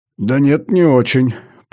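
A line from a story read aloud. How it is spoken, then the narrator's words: Mumbling. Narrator (Russian): промямлил я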